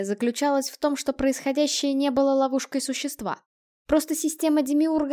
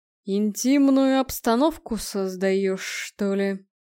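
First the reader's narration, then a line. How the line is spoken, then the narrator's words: Amused snort. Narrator (Russian): хмыкнул легионер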